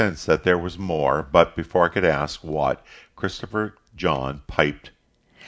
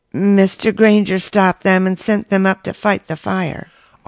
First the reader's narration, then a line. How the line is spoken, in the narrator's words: his voice hollow and strained, he said